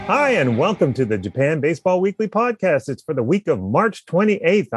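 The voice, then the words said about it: Congested, stuffy-sounding voice. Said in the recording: “Allergies. But I'm fine. I just sound like I have a cold.”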